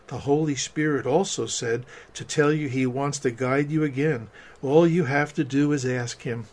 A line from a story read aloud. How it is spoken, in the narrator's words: whispered